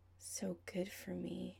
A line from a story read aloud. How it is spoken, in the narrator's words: Adam murmurs, voice fond like it always is after he comes